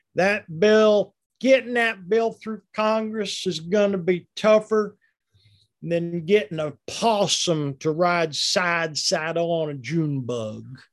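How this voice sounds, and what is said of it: Folksy politician impression. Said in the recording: “I maybe want to do an impression of him someday. He tries, everything has to be folksy ... That's a great impression of”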